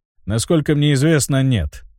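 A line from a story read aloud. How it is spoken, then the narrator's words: Grim. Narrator (Russian): мрачно ответил Генрих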